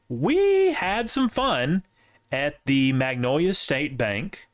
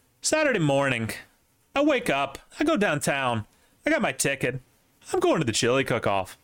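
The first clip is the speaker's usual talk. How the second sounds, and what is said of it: Put-on Canadian accent. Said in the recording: “talking Canadian”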